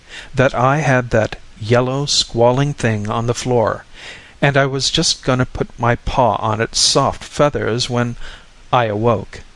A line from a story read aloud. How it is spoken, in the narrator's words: went on calmly